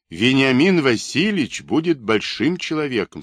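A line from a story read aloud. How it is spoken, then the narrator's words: Plain. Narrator (Russian): сказал он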